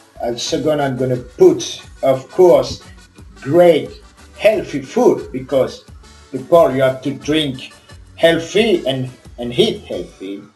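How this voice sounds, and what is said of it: French accent. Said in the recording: “Sorry for my accent, I'm French.”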